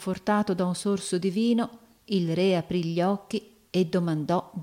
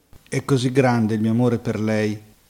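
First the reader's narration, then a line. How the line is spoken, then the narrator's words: King's exclamation. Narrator (Italian): esclamò il re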